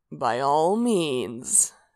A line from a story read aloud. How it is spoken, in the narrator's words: Sanguine purred